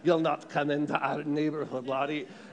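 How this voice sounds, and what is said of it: Put-on Irish accent. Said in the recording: “That's my best Irish accent.”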